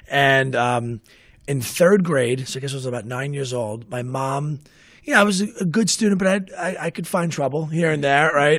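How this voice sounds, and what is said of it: Raspy Staten Island accent. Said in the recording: “grew up in Staten Island. If you couldn't tell with my raspy accent that I still have... I've never been able to shed”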